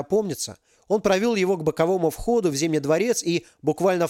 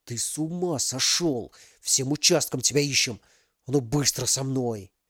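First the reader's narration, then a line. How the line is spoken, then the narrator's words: Whispered through teeth. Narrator (Russian): тот сквозь зубы шепнул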